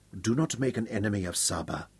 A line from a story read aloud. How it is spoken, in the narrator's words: she whispered quietly